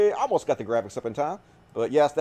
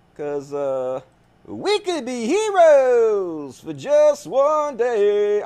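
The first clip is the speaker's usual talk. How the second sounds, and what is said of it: Sung impression of a famous singer. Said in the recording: “that is my Bob Dylan impersonation of the song Heroes”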